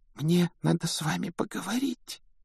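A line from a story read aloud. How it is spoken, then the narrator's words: Embarrassed whisper. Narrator (Russian): прошептала она смущенно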